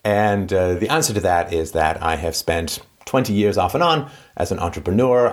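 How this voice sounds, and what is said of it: Vaguely British accent. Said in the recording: “Vaguely British accent.”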